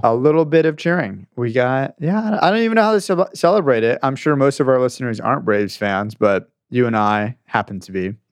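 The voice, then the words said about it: Hoarse, worn-out voice. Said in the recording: “My voice is a little gone today from a long weekend of weddings and being in Atlanta, seeing people, and last night.”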